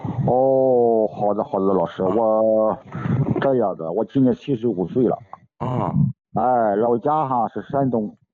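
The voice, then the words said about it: Shandong regional Mandarin accent. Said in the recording (Chinese): “听得出来有山东口音。”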